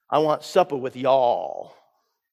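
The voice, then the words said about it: Put-on Southern US accent. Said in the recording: “In his best southern accent”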